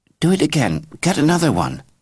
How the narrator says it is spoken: pleaded

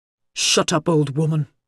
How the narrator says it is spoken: the man snapped

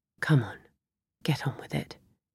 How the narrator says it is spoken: muttered to herself

